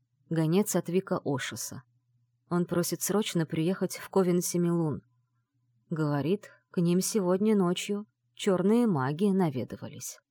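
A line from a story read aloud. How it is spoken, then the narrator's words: Low voice. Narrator (Russian): помощник заговорил вполголоса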